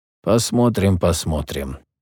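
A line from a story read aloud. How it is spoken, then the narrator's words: Father, through gritted teeth. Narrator (Russian): снова процедил сквозь зубы отец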